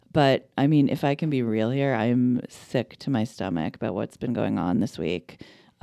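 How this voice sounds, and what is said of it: Voice affected by a cold. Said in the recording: “I'm like jacked up on cold meds right now, so I'm sorry about my voice.”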